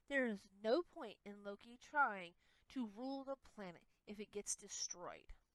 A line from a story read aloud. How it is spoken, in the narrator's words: Himiko muttered